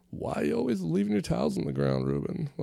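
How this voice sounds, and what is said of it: Old man voice. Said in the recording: “why do you sound like an old man?”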